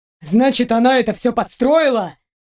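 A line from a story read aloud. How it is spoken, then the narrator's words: Near shouting. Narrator (Russian): Принц почти кричал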